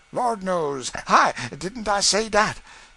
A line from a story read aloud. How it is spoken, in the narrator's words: said he, suddenly catching his breath with a ludicrous flourish of apprehension